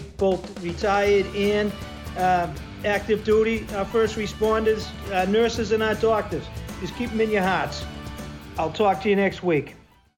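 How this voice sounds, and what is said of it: Thick Boston accent. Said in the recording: “I hear the accent ... really talking in a thick Boston accent”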